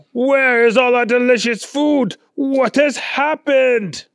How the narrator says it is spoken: Claude started yelling

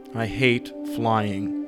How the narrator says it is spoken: Bill muttered, embarrassed

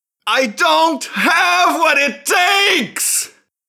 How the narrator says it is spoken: She shouted

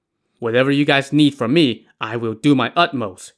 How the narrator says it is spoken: Yue He said

